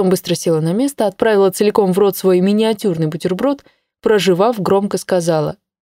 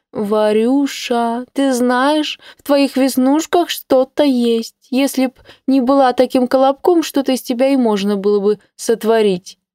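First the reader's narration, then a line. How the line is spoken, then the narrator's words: Affected mimicking voice. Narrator (Russian): пытаясь изобразить Инну, жеманным голосом произнесла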